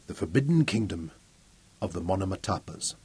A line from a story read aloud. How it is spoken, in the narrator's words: said softly